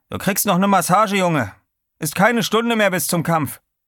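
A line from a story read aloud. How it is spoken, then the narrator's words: Calling out. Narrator (German): rief er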